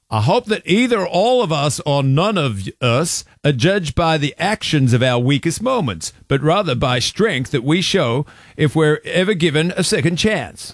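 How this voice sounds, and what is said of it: Imitates another person's accent. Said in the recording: “say it with his accent? ... do the accent ... They just heard me struggling”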